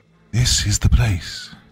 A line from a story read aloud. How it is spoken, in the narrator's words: she whispered, her voice reverent